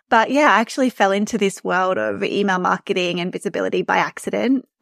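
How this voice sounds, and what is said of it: Australian accent. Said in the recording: “You can probably tell from my accent that I'm from Australia.”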